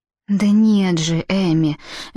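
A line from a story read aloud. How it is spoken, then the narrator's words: Said softly. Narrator (Russian): мягко сказала Ханна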